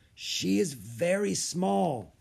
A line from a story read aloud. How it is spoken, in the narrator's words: said hoarsely